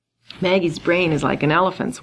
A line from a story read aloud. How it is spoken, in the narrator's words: Wangaroo said, laughing